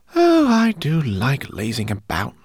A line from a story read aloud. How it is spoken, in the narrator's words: sighed